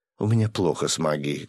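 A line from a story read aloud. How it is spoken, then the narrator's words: Sad sigh. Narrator (Russian): грустно вздохнула Катя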